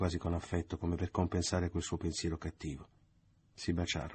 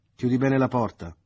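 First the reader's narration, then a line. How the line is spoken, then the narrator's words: Shouted. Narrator (Italian): le gridò Leo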